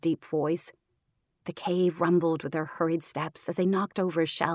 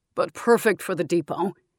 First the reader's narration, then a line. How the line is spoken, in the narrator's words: laughed